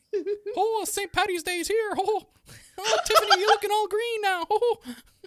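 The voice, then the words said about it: Clumsy Irish accent, Mickey Mouse-like. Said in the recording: “a combination of Mickey Mouse / leprechaun? ... I can't do an Irish accent if my life depended on it. ... It turns to Italian so fast.”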